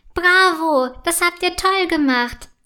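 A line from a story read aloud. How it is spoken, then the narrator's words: Calling out. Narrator (German): ruft Prinzessin Annabelle ihnen zu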